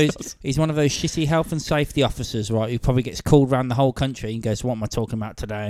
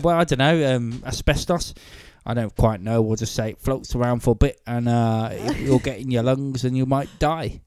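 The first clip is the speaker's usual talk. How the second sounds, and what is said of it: Put-on Yorkshire-Manchester accent. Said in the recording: “What accent was that? ... Yorkshire meets Manchester.”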